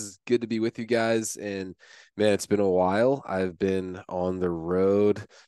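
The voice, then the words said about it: Rough, sick-sounding voice. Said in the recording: “with like the black lung or something over here. You can probably hear it in my voice. I've been literally coughing for like almost a month now”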